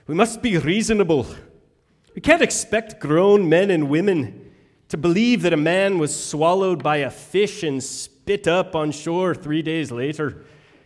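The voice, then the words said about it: Weak Scottish brogue, sounding Irish. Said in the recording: “with his Scottish brogue ... I sounded a little Irish there, I think, too. ... Really not that good.”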